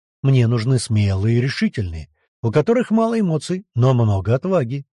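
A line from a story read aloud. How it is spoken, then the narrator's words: Even, flat voice. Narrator (Russian): говорил ровным, почти бесцветным голосом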